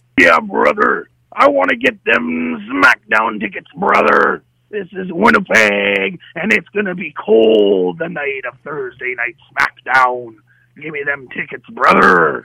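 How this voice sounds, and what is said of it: Imitates a pro wrestler's voice. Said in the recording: “your best WWE superstar impression”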